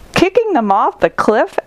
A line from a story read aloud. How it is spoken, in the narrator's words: exclaimed Leopard